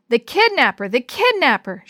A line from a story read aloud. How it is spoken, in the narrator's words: yelled